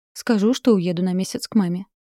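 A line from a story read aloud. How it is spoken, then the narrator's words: Plain. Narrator (Russian): ответила Синицына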